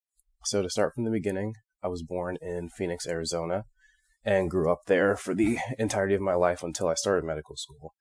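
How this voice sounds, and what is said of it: Slightly hoarse voice. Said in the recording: “I've been a little sick, so my voice might be a little hoarse.”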